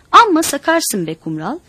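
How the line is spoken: Annoyed shout. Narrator (Turkish): diye canı sıkılarak bağırdı

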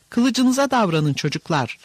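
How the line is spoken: Shouting. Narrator (Turkish): diye bağırdı

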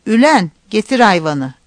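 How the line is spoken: Shouting. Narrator (Turkish): diye bağırdı

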